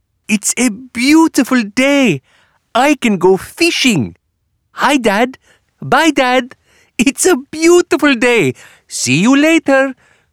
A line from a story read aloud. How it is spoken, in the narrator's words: shouted Magdi